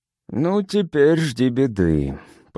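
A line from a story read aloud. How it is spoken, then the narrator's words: Grumbling mutter. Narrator (Russian): пробурчал Сигурд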